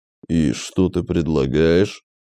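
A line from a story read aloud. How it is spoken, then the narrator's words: Orc speaking through teeth. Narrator (Russian): процедил орк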